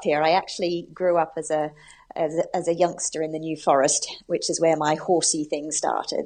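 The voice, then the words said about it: Mixed Australian, American and British accent. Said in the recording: “I hear a little accent from you there ... I'm originally from Australia ... I have a mix of accents, having spent 6 years in America ... and then being in the UK for the last 10 years.”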